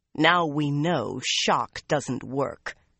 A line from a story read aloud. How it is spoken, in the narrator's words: she growled at Theodrin